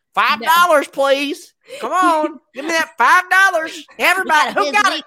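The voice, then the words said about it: Imitates another person's voice. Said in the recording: “Trying to do the Denise impersonation of me ... That's what you sound like.”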